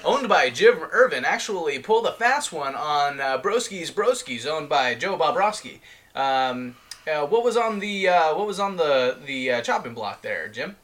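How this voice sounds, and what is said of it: Sports announcer voice. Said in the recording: “I was trying to do an ESPN announcer voice.”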